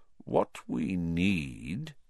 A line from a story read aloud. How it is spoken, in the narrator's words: said Dumbledore slowly